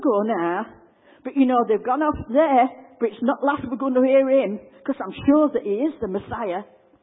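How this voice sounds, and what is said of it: Yorkshire accent. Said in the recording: “There's a good bit of Yorkshire, eh? ... in a good Yorkshire accent”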